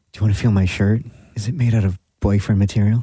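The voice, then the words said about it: Whispering. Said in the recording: “I'm whispering in your ear now”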